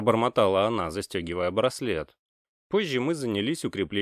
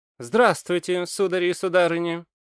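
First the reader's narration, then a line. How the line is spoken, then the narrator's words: Cheerful. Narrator (Russian): бодро произнес он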